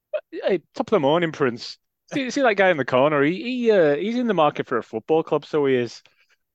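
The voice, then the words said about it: Put-on Irish accent. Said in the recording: “Irish”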